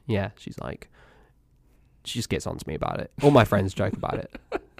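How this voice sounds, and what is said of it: English accent, slightly fading. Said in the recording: “I was born in England. You might be able to tell. ... The accent, I think, gives it away. ... It's going away a little bit.”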